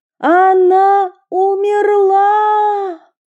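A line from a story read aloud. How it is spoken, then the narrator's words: Sudden shout. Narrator (Russian): Вдруг одна из них крикнула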